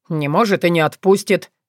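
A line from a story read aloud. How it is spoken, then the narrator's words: Barked. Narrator (Russian): рявкнул Вран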